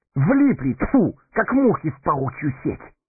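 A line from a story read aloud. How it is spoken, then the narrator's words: Desperate exclamation. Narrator (Russian): С отчаянием воскликнул Сэмми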